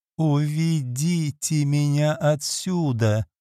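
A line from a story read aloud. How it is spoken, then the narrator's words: Moan. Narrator (Russian): простонала она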